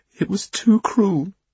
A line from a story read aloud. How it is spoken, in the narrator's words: she sobbed